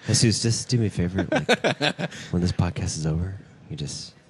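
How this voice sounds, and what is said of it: Whispering into the microphone. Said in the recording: “I'm whispering into the mic ... Everyone can hear you.”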